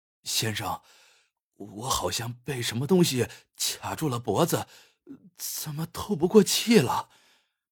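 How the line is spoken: Gasping plea for help. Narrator (Chinese): 龟子大口大口的喘着气，向推销员求助道

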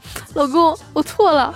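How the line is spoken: Wife crying. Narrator (Chinese): 我老婆 哭着说

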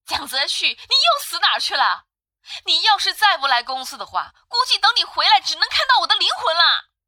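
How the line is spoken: Roaring over the phone. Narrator (Chinese): 对着电话那头咆哮

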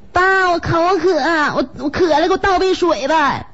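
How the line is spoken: Child calling out. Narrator (Chinese): 五岁多孩子 小虎搁屋里边喊

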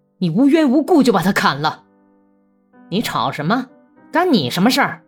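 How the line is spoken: Shouting. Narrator (Chinese): 格里高利喊道

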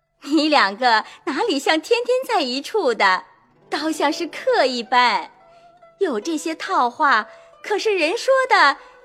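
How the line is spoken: Laughing. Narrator (Chinese): 凤姐笑道

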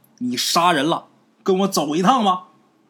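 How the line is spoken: Shouting. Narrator (Chinese): 这些个巡街小吏就喊呐

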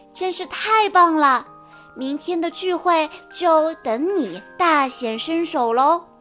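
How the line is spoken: Admiring praise. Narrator (Chinese): 苏菲亚赞叹不已

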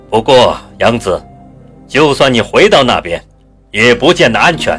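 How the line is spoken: Stern, harsh. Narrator (Chinese): 阎王厉声说道

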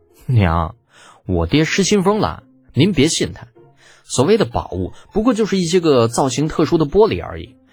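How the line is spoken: Speechless wry smile. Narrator (Chinese): 李浩无语，苦笑道

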